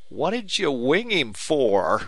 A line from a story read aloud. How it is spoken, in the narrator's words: he wailed